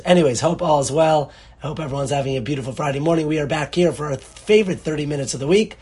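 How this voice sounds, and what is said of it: Hoarse, laryngitis-strained voice. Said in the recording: “I have a little bit of case of laryngitis ... my throat sometimes gives out ... you are hearing me with complete laryngitis”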